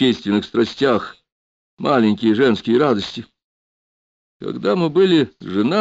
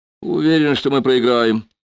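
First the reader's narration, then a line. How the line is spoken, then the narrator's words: Snort. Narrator (Russian): Чиянов хмыкнул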